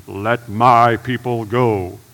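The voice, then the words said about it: Low-voiced Charlton Heston impression. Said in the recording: “just like Charlton Heston ... In that low voice.”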